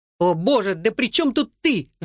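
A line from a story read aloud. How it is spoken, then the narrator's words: Shouting. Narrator (Russian): закричал Энтони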